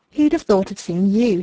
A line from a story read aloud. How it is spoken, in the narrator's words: he exclaimed